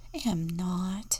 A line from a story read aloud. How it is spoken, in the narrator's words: whispered Louise